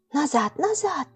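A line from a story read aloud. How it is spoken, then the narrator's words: Girl's urgent whispered command. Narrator (Russian): поспешно шепотом приказала девочка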